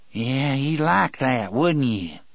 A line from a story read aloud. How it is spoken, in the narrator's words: Percy sneered